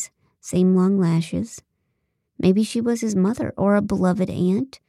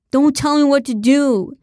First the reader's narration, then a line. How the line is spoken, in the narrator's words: yelled one man